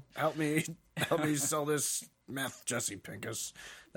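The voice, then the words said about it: Imitates a TV character's voice. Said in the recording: “my impression of Breaking Bad”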